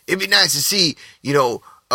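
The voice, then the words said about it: Bad imitation of another person's voice. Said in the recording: “doing a bad Chris Rock impression”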